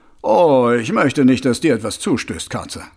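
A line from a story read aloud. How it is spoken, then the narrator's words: Plain. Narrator (German): sagte Mumm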